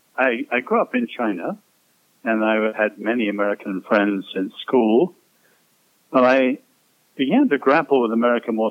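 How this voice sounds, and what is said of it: Non-American accent. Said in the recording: “they recognize from your accent that you ain't from around these parts”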